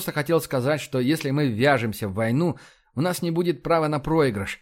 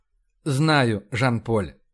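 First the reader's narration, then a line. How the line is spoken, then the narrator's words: Very soft. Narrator (Russian): сказал Рашин очень мягко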